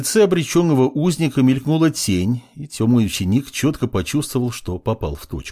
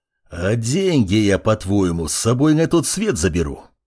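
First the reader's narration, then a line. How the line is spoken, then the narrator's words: Growled. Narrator (Russian): прорычал собеседник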